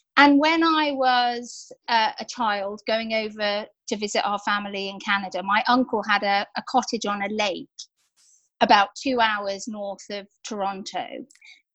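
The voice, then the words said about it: Very English accent. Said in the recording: “despite my very English accent”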